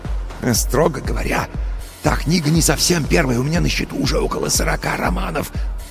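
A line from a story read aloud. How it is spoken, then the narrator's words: Self-important whisper. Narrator (Russian): важно зашептал Костя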